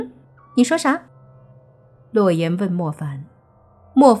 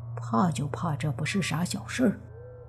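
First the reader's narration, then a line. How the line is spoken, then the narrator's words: Soft muttering. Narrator (Chinese): 他不由轻声的嘀咕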